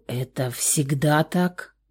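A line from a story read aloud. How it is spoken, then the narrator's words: Hoarse question. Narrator (Russian): хрипло спросил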